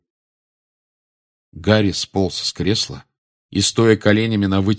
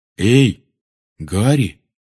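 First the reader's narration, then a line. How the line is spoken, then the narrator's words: Hesitant call. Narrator (Russian): неуверенно окликнул его Рон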